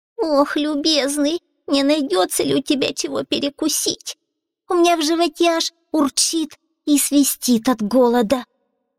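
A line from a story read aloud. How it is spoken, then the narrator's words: Hungry moaning. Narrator (Russian): простонал лис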